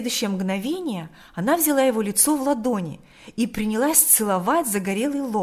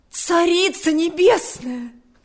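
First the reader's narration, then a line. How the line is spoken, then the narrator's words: Exclaiming. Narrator (Russian): воскликнула она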